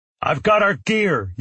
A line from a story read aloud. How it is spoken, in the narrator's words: yelled Park